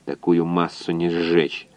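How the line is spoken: Grumble. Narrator (Russian): буркнул инженер

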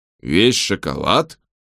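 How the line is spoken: Grumbling. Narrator (Russian): проворчал он

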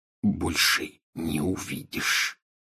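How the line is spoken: Whispered addition. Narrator (Russian): шепотом прибавил он

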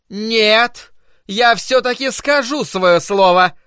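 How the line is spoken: Shouted. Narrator (Russian): прокричала миссис Кармоди

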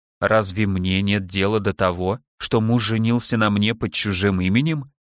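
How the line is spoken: Soft objection. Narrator (Russian): возразила я мягко

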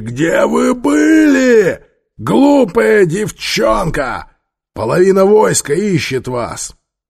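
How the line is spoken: Bull-like bellow. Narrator (Russian): Апепи бычьего голоса проревел дочери

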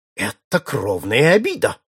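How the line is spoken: Heated exclamation. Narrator (Russian): воскликнул запальчиво лорд Мьюсидент

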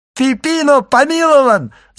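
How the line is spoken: Shouting, shaken from stupor. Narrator (Russian): закричал Андреа, сразу стряхнув с себя оцепенение

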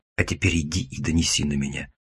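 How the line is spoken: Gloating hiss in ear. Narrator (Russian): Злорадно зашипел я ему в ухо

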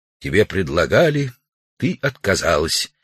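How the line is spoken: Quiet. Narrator (Russian): Удалов негромко сказал

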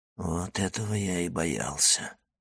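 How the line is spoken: Whisper. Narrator (Russian): прошептал Моррель

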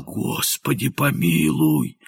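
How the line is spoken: Hoarse frightened whisper. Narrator (Russian): бледный как полотно, хрипло прошептал

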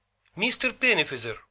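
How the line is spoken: Shouted. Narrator (Russian): крикнула Китти

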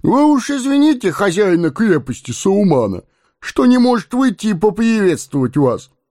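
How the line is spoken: Giggling agreement. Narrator (Russian): Товарищ веселого привратника хихикая, поддакнул

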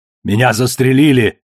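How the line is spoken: Panicked shout. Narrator (Russian): выкрикнул он в панике

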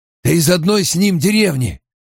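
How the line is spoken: Hoarse. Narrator (Russian): хрипло сказал Массима

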